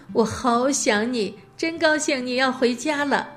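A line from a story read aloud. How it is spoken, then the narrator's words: Warm smiling mother. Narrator (Chinese): 母亲对儿子露齿微笑时，她是在对儿子说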